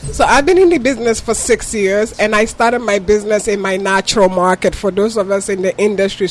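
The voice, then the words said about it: Ghanaian accent. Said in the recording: “If you can tell from my accent, I'm from Ghana.”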